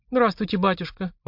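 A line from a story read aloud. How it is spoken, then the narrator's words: Timid. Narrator (Russian): робко проговорила Марина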